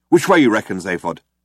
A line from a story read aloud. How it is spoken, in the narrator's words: said Ford